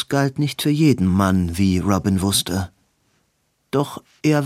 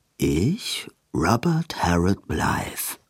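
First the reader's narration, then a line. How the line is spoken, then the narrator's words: Rough whispered prompting. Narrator (German): Edwins Stimme ein raues Flüstern und sagte ihm vor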